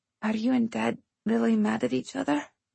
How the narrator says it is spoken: Lily whispered

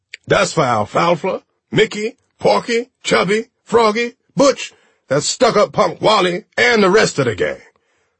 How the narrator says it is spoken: shouting

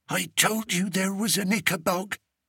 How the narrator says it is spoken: came Martha's terrified whisper

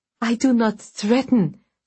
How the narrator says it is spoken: said Vasya desperately

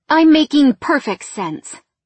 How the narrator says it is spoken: snapped back, her brusque manner sparking temper

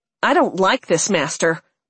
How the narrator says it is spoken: Nanny said, her voice angry

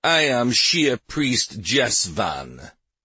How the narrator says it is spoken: the leader said as he sneered in reply

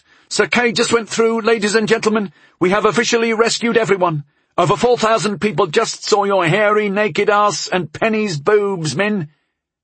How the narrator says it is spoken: Carmella called out

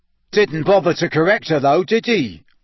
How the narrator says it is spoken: said Amos Diggory, loudly enough for Harry to hear

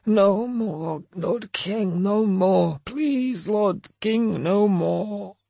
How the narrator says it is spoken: Snorri moaning, and I heard him mutter

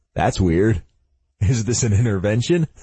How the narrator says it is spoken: He chuckles

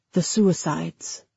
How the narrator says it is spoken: she lowered her voice

